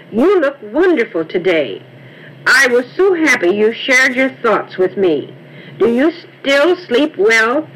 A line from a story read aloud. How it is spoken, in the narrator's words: exclaimed